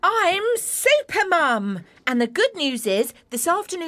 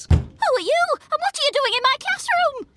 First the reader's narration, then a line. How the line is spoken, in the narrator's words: spluttered the flustered teacher, Miss Frazzle